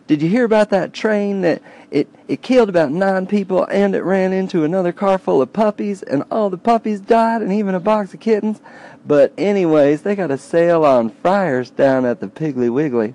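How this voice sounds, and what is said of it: Deep Southern accent impression. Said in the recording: “Deeper southern accent than I gave her credit for there.”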